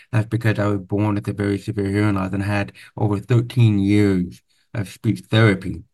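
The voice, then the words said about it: Deaf accent. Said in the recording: “my deaf accent. If you haven't noticed already, I have a different accent.”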